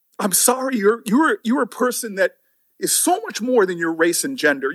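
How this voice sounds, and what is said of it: Emotional, tearful voice. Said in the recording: “this is why I get emotional. ... brought the room to tears”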